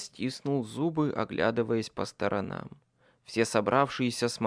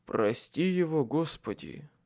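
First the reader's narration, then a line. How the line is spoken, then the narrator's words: Sighing. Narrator (Russian): вздохнул Майкл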